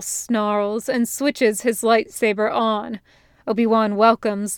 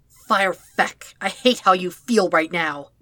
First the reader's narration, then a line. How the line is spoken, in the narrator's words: he snaps